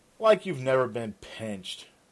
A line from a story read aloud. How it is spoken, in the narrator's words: Raven scoffed